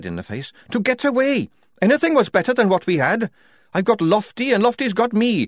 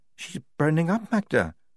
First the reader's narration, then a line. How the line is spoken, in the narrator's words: said Lofty quietly